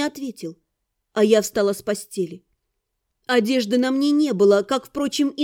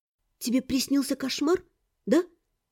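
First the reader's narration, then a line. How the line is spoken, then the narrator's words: Quiet question. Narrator (Russian): негромко спросила я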